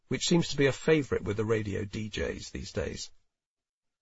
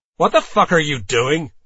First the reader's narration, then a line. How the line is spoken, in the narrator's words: I hear Liam shout loudly